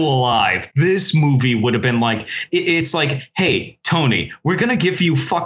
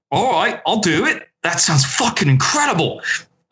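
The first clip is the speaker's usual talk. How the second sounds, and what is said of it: Put-on Australian accent. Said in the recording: “I'm giving him an Aussie accent”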